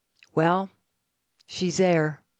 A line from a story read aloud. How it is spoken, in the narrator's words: The little old man calmly said